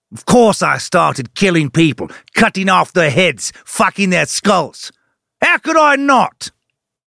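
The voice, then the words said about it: Vague Cockney-ish Australian accent. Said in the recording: “That was not a Scottish brogue or accent... kind of sort of Cockney-ish, but not really, maybe Australian or some unrecognizable hodgepodge of Commonwealth countries' accents”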